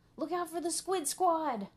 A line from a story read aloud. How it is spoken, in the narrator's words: yelled Buster